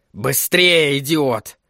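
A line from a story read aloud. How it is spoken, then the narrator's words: Barking. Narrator (Russian): рявкнул Флэг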